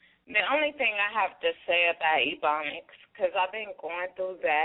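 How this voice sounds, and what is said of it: Usual voice. Nothing is said of it.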